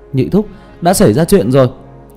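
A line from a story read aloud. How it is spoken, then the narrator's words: Loud distant shouting. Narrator (Vietnamese): một đôi thiếu niên còn ở rất xa mà đã kêu lên oai oái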